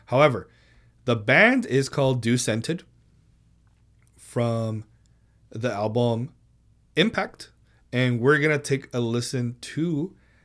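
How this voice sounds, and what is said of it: Speaker's own noticeable accent. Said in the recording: “I can't fucking pronounce it. It's my goddamn accent.”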